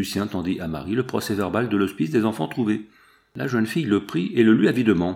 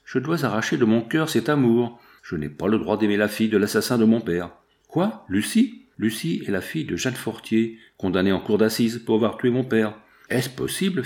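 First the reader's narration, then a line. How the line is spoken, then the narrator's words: Fierce tone. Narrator (French): fit Marie d'un ton presque farouche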